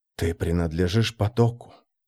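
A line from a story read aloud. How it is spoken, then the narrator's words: Whisper. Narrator (Russian): шепнул Марк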